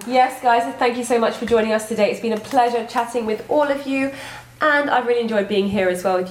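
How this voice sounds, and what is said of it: British accent. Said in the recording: “is that an amazing British accent?”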